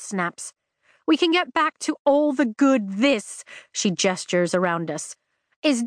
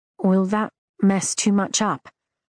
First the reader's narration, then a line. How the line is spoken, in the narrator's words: Marin asks me quietly